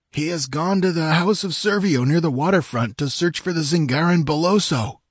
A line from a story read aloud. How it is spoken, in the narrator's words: gasped Publio, all his power of resistance gone out of him